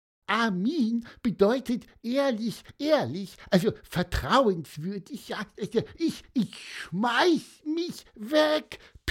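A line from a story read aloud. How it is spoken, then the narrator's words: Squeaky voice. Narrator (German): piepste Pieper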